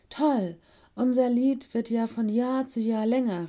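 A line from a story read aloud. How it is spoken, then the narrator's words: Called out. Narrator (German): rief sie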